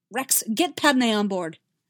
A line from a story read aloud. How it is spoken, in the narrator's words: Anakin snapped